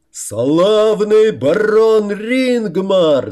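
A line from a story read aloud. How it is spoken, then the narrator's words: Two voices shouting together. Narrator (Russian): заорал Трим на пару с Рамусом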